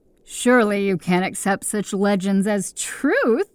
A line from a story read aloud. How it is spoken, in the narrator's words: The beast laughed and added